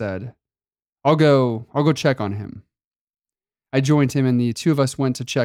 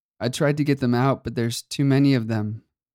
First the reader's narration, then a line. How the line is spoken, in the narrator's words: Leonard said weakly